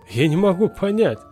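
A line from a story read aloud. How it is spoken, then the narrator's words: Chuckling. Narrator (Russian): хохотнул отец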